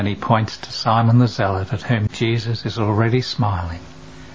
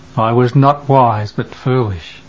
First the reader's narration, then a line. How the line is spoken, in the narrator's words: Bartholomew comes, moaning